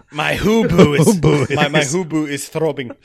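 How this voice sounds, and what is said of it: Poor put-on South African accent. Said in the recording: “I can't do a South African accent. It kind of sounds like this. ... That's not very good.”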